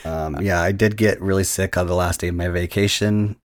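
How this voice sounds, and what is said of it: Hoarse voice after vomiting. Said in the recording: “I threw up so hard that I lost my voice. So if I come off a little strange”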